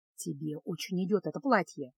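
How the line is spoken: Sorcerer's whisper. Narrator (Russian): шепнул чародей

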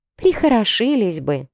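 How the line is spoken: Maid's sigh. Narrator (Russian): вздохнула служанка

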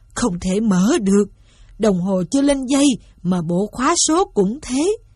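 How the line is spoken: Groaning. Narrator (Vietnamese): Ông rên rỉ

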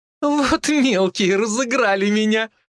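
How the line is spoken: Woman laughing loudly. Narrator (Russian): расхохоталась женщина

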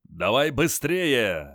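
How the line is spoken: Barked order. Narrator (Russian): рявкнул Крас

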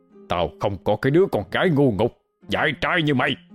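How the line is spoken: Yelling. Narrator (Vietnamese): ông gào lên

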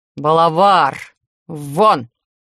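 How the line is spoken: Low vibrating growl. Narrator (Russian): Рычание получилось настолько низким и вибрирующим

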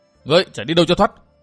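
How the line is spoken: Loud shout. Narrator (Vietnamese): quát lớn

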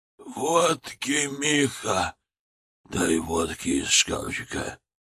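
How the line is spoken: Hoarse wheeze. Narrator (Russian): Людвиг Аронович просипел

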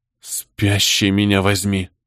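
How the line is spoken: Whisper. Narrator (Russian): прошептал Мартин

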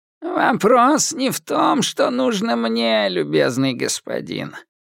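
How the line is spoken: Creaky beggar's voice. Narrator (Russian): проскрипел нищий

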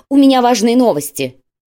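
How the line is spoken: Shouted. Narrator (Russian): Иржи прокричал фразу

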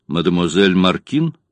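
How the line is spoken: Dry question. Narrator (Russian): спросил сухим тоном

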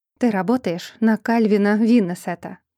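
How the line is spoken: Cold. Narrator (Russian): холодно произнесла девушка

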